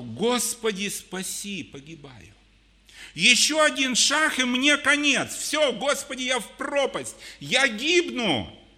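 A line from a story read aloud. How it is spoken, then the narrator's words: Crying out. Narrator (Russian): Петр закричал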